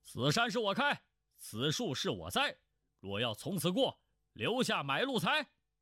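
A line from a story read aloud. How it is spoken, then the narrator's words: Loud bellow. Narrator (Chinese): 他…大声喝道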